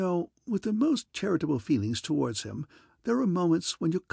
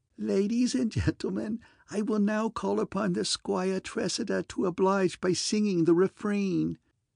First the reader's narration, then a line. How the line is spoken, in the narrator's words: having shut his eyes and giggled hysterically, said